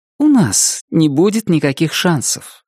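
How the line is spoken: Calm. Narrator (Russian): спокойно сказала она

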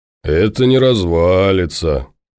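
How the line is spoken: Reverent hoarse drawl. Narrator (Russian): благоговейно протянул хриплый

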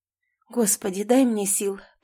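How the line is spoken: Muttered. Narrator (Russian): пробормотала я

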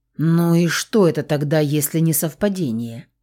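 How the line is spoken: Surprised mutter. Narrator (Russian): удивленно пробормотал Саня

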